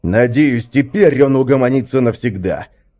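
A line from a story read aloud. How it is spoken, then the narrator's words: Angry. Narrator (Russian): произнес Свен зло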